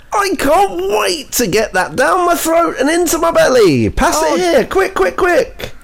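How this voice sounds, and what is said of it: Exaggerated children's-TV-presenter style voice. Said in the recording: “that accent ... why are you doing impressions of Mr. Tumble? ... big Mr. Tumble energy ... He talks like that all the time.”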